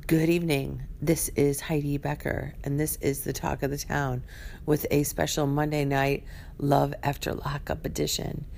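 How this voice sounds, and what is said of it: Scratchy, congested voice. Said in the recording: “I have a cold ... That's scratchy enough.”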